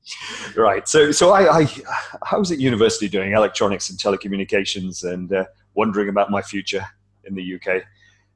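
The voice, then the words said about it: British accent. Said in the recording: “I'm British, as you can tell from my uh, ... my smooth accent.”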